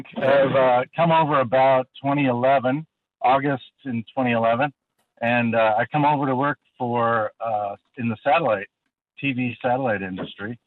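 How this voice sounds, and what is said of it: American accent. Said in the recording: “your accent ... I'm a Yank. I'm definitely a Yank.”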